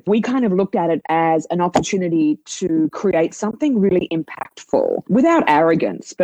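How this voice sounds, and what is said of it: Australian accent. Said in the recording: “You can tell by my accent, I'm from Australia”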